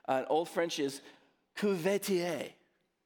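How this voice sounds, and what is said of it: Put-on French accent. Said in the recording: “I'm gonna try my French out on you this morning... With my French accent there.”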